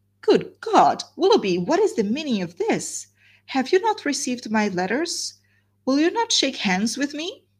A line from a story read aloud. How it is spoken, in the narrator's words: exclaimed in a voice of the greatest emotion